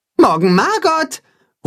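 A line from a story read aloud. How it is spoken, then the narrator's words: Calling after someone. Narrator (German): ruft Timme ihr nach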